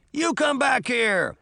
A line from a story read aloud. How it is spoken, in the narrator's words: screaming